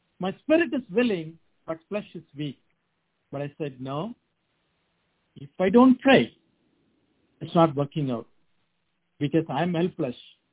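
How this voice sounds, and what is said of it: Noticeable accent in English. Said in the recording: “The way I speak, I don't know my brothers and sisters, they are going to understand my accent.”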